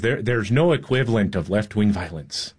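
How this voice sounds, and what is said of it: Poor put-on Irish accent. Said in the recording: “he's a little Irish guy ... That's a terrible accent.”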